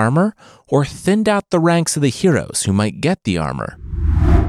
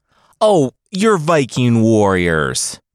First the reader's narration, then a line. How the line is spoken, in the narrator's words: the Jarl yelled at his men